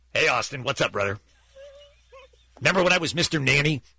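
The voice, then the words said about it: Hulk Hogan impression. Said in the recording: “The Hulkster didn't tell us that one time. ... Hey, Hulkster.”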